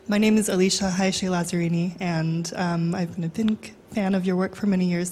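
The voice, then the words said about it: Strained, unwell-sounding voice. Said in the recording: “my voice is not doing so well”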